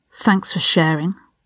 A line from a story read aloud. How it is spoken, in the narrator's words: Ron muttered